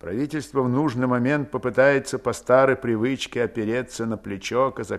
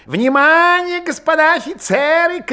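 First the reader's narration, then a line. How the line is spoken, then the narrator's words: Shouted. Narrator (Russian): крикнул Чубов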